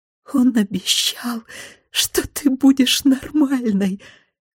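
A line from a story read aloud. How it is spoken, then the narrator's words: Frantic whisper. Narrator (Russian): как полоумная шептала она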